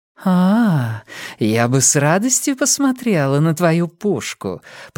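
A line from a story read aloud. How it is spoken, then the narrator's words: Cooing. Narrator (Russian): проворковала Нина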